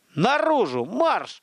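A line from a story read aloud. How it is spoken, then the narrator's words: Barked order. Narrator (Russian): рявкнул Михаил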